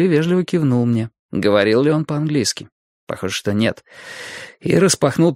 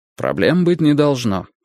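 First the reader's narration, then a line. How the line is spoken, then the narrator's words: Dry. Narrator (Russian): сухо сказал он мне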